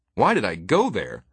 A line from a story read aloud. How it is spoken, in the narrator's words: said Farmer, raising his voice